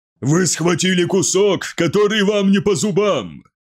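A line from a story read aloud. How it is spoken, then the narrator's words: Roaring, deafening static over loudspeaker. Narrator (Russian): Взревел Калуфис, и его слова прозвучали из громкоговорителя оглушительными раскатами помех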